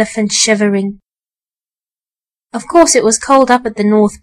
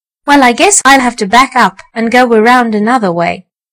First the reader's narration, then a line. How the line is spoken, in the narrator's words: said Mr